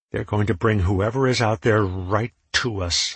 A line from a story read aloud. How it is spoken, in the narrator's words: I snarled